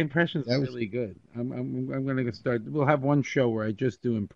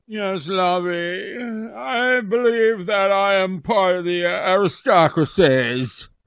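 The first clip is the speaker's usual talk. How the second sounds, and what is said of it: Posh upper-class character voice. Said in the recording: “Are you going to talk like Mr. and Mrs. Howell? ... I'm impressed with your impression.”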